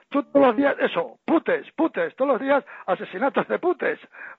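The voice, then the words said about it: Put-on Asturian Spanish accent. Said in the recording (Spanish): “con su acento así asturiano me decía”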